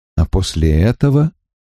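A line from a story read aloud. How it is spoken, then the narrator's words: Calm. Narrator (Russian): продолжал Гет спокойно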